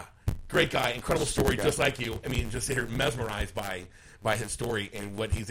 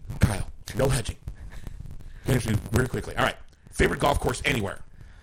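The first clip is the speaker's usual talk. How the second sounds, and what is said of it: Imitates another person's voice. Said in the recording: “my Frank Cusumano impression”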